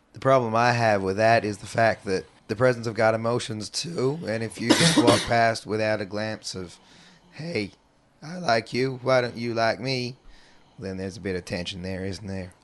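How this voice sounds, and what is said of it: Southern-sounding accent, sore throat. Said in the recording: “your craptacular southern accent ... You can blame the virus in my throat for the accent.”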